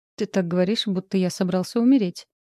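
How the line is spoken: Forced playful snort. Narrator (Russian): хмыкнул Андрей с явно искусственными игривыми нотками

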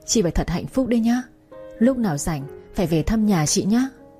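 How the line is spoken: Choked with emotion. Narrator (Vietnamese): nghẹn ngào nói

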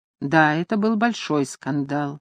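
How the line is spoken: Weary. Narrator (Russian): устало сказал сэр Эдвард

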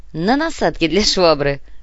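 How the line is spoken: Laughing. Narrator (Russian): рассмеялся Артем

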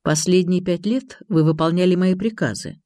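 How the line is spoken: Calm, barely restrained male. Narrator (Russian): спокойно ответил мужчина, хотя чувствовалось, что он едва сдерживается

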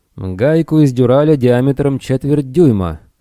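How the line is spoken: Loud and clear. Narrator (Russian): громко и отчетливо произнес он

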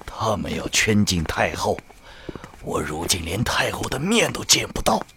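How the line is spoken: Low voice. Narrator (Chinese): 贺连侯低声说

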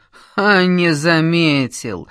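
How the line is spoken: Diabolical laughter. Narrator (Russian): сатанински захохотал Шумаев

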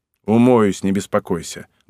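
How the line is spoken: Gruff mutter. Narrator (Russian): буркнул я

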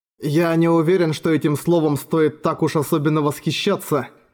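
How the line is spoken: Plain. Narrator (Russian): сказал Эрагон

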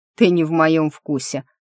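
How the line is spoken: Snorting. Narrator (Russian): красавчик хмыкнул

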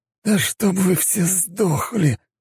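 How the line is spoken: Hissed. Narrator (Russian): прошипел второгодник

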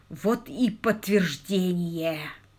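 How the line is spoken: Groan. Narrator (Russian): простонал он

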